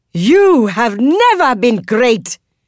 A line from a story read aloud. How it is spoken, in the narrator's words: she roars